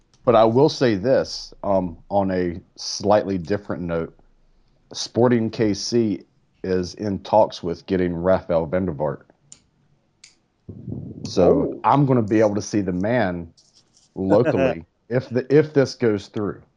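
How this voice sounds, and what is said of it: North Carolina accent. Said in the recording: “you've got such a posh, upscale North Carolina accent”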